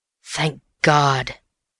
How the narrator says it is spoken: he murmured

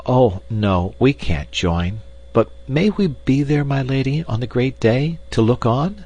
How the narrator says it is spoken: Gretel's eyes twinkled with fun, but she blushed as she faltered out timidly

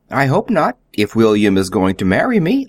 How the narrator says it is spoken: laughed Billy again

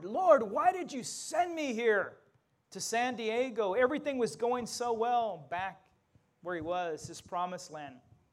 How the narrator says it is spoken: he cried out to the Lord

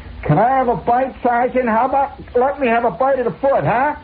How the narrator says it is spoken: somebody holler

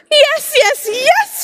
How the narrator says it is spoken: shouted Angelina

